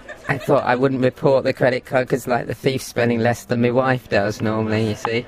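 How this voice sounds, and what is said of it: Electronically altered disguised voice. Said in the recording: “voice changer ... It is a voice changer on that”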